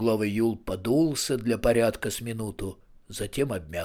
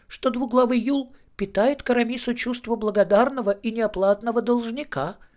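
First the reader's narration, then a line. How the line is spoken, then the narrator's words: Squeaky voice from behind. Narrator (Russian): пропищал из-за самовара Етуркин Жансерхив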